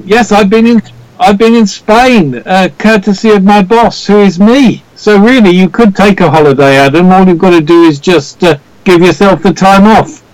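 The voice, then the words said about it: Natural Welsh accent. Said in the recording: “we love that accent. It's real. It's genuine and quite cool”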